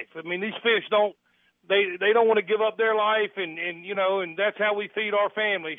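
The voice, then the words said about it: Southern American accent. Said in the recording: “you sound like you have more of a Southern accent and then a New England accent”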